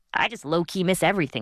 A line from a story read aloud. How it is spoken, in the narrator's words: she said